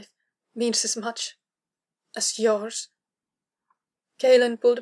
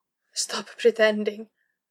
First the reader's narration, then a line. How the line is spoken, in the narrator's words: Kara choked in response, barely able to get the words out at all